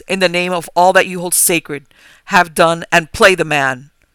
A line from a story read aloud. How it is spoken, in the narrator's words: I cried in a loud, firm voice